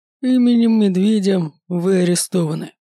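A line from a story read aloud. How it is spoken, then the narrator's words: Menacing. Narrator (Russian): грозно говорит тот, что выше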